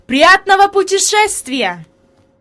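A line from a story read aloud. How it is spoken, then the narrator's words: Shout. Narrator (Russian): господин Сесман крикнул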